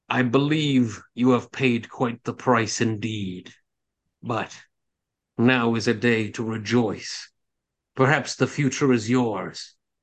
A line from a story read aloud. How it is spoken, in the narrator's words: the lich begins to cackle aloud and say